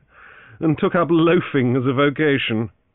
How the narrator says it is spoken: Francis laughed

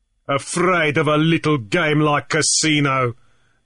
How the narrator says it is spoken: Deacon sneered

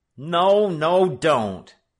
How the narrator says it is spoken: Frisco Kid cried

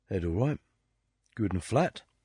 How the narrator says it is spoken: Dag Daughtry murmured

